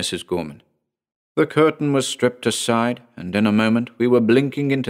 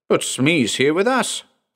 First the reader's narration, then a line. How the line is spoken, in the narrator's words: I cried